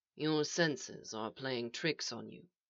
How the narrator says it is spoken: said the voice softly

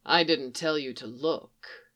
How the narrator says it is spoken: Callis purrs

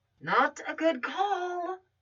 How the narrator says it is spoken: Barbara whispered in her ear

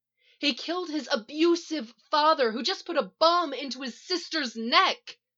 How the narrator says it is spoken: Iris shouts

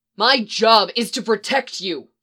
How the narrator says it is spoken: Phil told him angrily

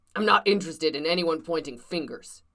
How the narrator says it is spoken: said sternly

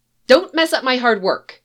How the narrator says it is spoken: Chloe snaps

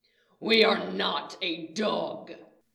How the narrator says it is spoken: Riot snarls

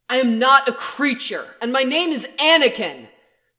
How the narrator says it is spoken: the Jedi says harshly

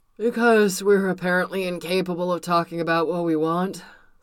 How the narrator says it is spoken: Steve muttered, face pressed against Tony's shoulder

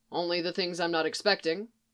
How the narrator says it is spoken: Coulson said, his tone dry

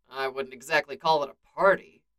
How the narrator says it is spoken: Steve sighs

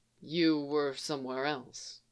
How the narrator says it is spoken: Qui-Gon said softly

